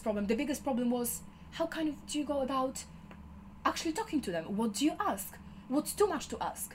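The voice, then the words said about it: Noticeable accent. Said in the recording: “my accent, that sometimes people don't necessarily fully understand me”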